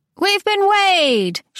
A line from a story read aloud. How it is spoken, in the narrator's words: she shouted out